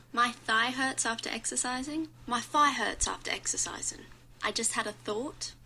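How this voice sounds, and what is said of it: Put-on Cockney accent. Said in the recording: “Cockney accent... How to do the Cockney accent... I'm Australian and not a professional”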